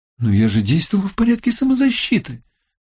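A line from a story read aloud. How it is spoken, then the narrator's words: Indignant. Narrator (Russian): возмущенно ответил Рима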